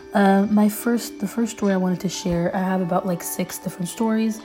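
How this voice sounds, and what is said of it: Weak, slightly hoarse voice. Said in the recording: “I'm getting over a really bad cold. So if I sound a little weird or I'm losing my voice”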